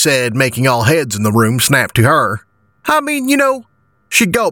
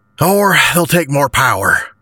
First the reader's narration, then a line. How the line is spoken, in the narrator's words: I sighed